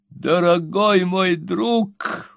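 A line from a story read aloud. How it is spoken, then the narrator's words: Exclaiming. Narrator (Russian): воскликнул мистер Пиквик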